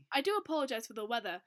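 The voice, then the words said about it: Heavy British accent. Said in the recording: “he starts up a conversation in his heavy British accent.”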